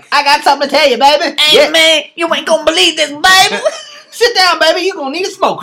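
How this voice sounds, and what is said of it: Imitates another person's voice. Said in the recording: “the way my voice goes ... How does my voice go when I'm about to tell you something?”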